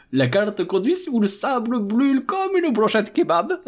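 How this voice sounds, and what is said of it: Caricatured stereotyped accent. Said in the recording (French): “il a un accent raciste de catégorie Michel Leb”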